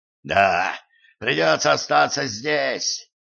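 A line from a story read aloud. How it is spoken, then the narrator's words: Hoarse rasp. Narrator (Russian): прохрипел он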